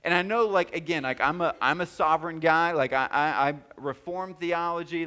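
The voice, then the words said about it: Regional accent with a drawl. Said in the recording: “my dialect ... my accent or my drawl”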